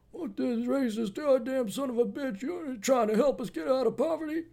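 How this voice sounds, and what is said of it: Abraham Simpson cartoon old-man impersonation. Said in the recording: “more my Abraham Simpson impersonation.”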